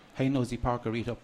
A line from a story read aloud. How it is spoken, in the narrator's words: Mam says